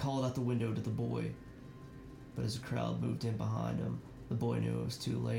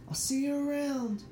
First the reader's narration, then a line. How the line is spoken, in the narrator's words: hollered back